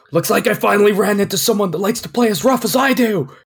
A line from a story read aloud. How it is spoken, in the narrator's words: Cody yells